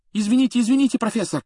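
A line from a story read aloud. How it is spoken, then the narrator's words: Rapid apologetic chatter. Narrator (Russian): затараторил Джордан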